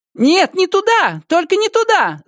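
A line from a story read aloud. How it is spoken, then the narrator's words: Coarse loud shout. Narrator (Russian): закричала она грузчиком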